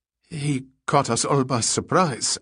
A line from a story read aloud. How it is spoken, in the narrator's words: Atwar stammered